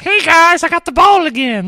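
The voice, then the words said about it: Bad cartoon character impression. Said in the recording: “bad Cartman impression”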